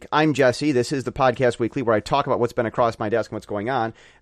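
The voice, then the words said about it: Hoarse voice. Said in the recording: “My voice is hoarse,”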